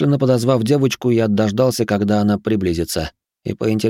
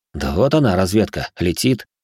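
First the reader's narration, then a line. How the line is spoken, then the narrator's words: Snorted. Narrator (Russian): хмыкнул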